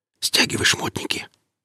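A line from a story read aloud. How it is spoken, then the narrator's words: Whispered order. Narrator (Russian): распорядился он шепотом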